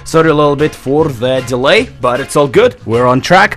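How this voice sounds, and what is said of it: Strained, worn-out voice. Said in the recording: “my voice is not at the best. It's about 62% or so. ... I did a little bit of singing, in terms of singing along with the bands ... my voice is not at the best”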